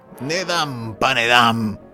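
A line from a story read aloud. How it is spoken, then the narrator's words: Devil cursing and shouting. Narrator (Slovenian): Zeleni vrag pa je klel in kričal iz kotla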